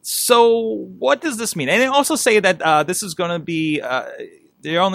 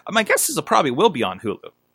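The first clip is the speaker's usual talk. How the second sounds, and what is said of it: Cracking voice, imitates another person's voice. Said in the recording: “Got a little cracky there. ... that's my Jay Leno impression.”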